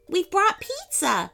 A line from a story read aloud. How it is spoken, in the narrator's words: she laughed